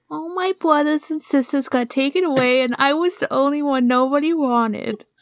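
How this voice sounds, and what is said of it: Cutesy, weak little boy voice. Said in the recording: “a cutesy, weak little voice ... like a young woman trying to do an impression of a little boy. ... A little boy voice. ... I'll try my little boy voice.”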